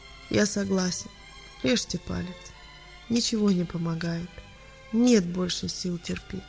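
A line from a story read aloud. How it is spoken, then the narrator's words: Quiet. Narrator (Russian): устало взглянул красными от бессонницы глазами на врача и тихо сказал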